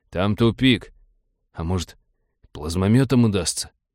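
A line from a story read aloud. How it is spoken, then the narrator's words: Timid mumbling. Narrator (Russian): тот промямлил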